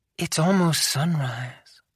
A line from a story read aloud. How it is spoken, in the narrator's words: whispered into my ear